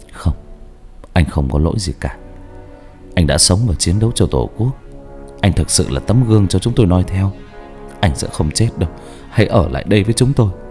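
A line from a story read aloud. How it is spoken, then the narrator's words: Soft, gentle words. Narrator (Vietnamese): Ba tôi khẽ nói với anh lính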